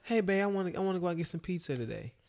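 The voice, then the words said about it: Man doing a female voice. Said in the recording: “do the female voice”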